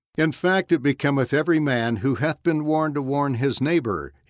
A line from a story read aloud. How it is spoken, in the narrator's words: said